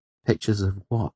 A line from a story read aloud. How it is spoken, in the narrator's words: I asked, fighting to keep my voice calm